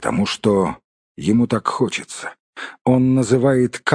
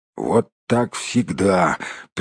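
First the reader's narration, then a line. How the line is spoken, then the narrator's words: Group grumbling. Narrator (Russian): принялись бурчать гномы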